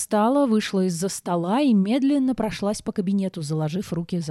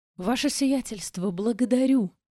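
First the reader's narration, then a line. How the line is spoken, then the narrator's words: Barely audible moan, man. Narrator (Russian): Едва слышно простонал мужчина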